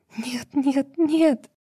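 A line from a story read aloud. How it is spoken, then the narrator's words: Echoing sobs. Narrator (Russian): Рыдания Лейлы эхом отражаются от стен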